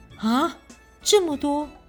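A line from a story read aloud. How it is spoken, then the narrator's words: Shocked cry. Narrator (Chinese): 宋真宗以为赔了三百万，不禁大叫一声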